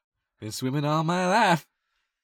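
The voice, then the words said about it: Impression of a movie character's voice. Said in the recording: “I sounded like Anakin when he came out with the womb. ... the accent is”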